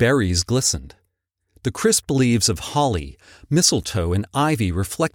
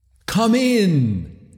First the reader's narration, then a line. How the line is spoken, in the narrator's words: exclaimed the ghost